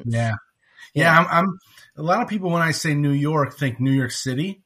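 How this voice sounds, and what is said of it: American New York accent. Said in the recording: “New York. Yes, you've got that kind of accent.”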